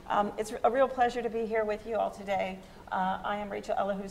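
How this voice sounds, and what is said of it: Rough, unwell-sounding voice. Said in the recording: “My voice sounds worse than I feel”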